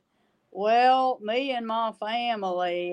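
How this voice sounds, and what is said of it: Imitates an inauthentic Louisiana accent. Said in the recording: “obviously not an authentic accent”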